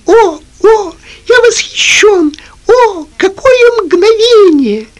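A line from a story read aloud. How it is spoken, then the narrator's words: Excited squeaking. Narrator (Russian): Пинг-понг все время пищал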